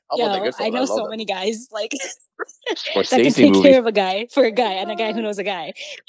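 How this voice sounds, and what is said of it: Put-on Brooklyn accent. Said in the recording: “stuck with a Brooklyn accent all evening”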